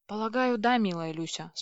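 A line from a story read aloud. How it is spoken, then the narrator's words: Calm reply. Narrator (Russian): спокойно ответил Дрык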